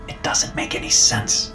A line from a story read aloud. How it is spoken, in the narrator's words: I whispered to myself